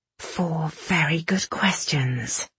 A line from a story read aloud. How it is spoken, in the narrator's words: Irene said through gritted teeth